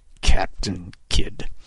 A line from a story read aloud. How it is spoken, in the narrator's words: Kidd muttered under his breath